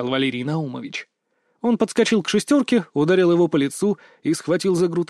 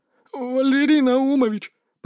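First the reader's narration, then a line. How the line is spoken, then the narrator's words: Timid babble. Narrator (Russian): пролепетал шестерка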